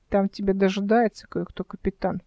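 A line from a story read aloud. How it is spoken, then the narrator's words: Muttered. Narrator (Russian): пробормотал Димка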